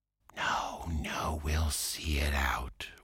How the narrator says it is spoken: whispered back the rat

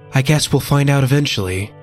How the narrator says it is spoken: Kaya sighed

